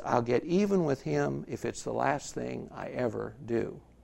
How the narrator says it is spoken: quietly to Charlie, he says

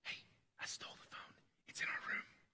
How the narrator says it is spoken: whispers to his sister

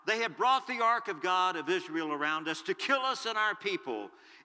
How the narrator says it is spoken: the people of Ekron cried out

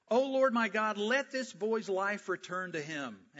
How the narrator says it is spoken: Elijah cried to the Lord

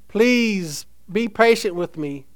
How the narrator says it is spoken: he pleaded and pled

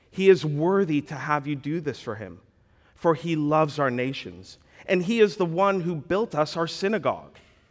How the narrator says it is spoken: they pleaded with him earnestly, saying

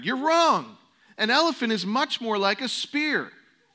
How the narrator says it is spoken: cried

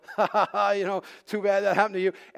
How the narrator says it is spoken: So my first reaction was to laugh and go

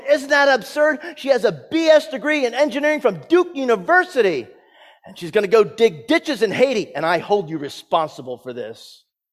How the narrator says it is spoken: this father screamed in the phone

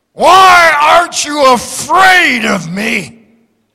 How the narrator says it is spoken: Satan roared

